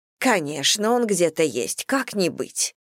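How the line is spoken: Snorting. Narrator (Russian): фыркнула миссис Бантинг

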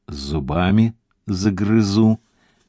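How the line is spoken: Calm soldier's reply. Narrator (Russian): спокойно ответил десантник

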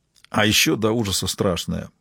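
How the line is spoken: Muttering. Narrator (Russian): пробормотал Фрост

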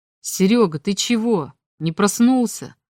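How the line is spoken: Surprised exclamation. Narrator (Russian): С удивлением воскликнул нижний сосед

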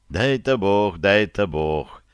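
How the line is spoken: Grandmother sighing. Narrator (Russian): вздохнула бабушка

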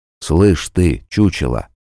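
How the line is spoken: Soft-spoken. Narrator (Russian): мягко сказал Арнольд

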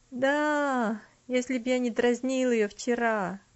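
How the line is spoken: Glum dejected reply. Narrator (Russian): уныло ответил Артур

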